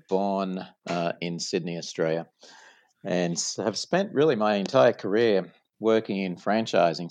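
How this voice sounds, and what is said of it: Non-American English accent. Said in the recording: “from my accent you probably noticed that i'm uh, not from the us”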